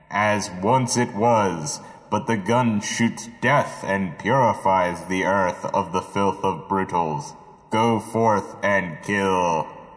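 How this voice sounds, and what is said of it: Muffled voice through cupped hands. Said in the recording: “How were you doing the voice just now? ... I just talked with my hands cupped in front of my face”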